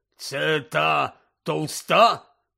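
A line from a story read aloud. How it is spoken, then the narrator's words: Growling. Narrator (Ukrainian): прогарчав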